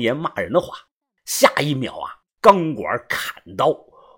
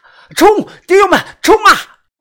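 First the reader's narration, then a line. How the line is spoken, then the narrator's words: Shouting. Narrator (Chinese): 一边喊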